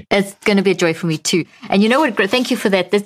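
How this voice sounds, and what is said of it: Charming foreign accent. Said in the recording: “you have like such a charming accent”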